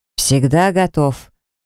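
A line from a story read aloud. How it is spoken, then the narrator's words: Brisk cheerful report. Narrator (Russian): бодро отрапортовал мой муж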